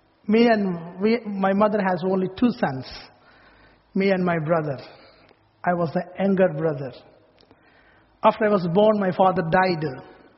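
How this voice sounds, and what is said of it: Speaks with a noticeable accent. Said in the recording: “my funny accent”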